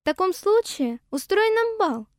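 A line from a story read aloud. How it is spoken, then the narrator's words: Exclaiming flowers. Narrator (Russian): воскликнули цветы шиповника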